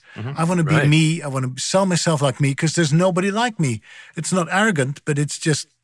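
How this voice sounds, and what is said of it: Speaks with a distinctive accent. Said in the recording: “this silly accent of mine”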